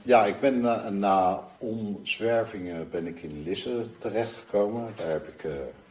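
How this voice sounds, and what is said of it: Slight Leiden Dutch accent. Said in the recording (Dutch): “jouw accent verraad je al een beetje ... Ik ben een echte Leidenaar ... dat is misschien wel te horen”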